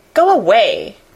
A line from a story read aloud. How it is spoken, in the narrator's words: cried Mary